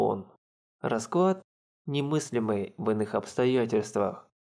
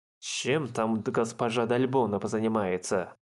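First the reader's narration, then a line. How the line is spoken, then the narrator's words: Grumbling. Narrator (Russian): Проворчал Дел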